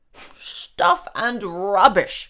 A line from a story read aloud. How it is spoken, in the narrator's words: cried Santa